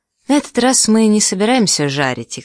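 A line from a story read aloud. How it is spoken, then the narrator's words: Plain. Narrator (Russian): сказал Люк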